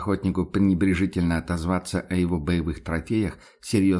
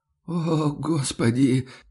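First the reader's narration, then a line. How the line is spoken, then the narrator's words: Groan. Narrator (Russian): простонал тот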